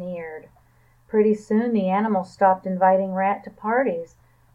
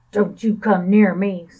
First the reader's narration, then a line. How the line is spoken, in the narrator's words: snarled Dog